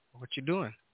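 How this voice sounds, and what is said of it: Put-on New York accent. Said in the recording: “Are you guys from New York? ... The New York accent.”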